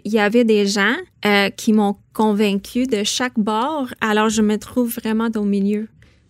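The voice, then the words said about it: Non-Québécois accent in French. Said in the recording (French): “votre public va entendre mon accent, puis ils vont peut-être dire que je suis pas québécoise”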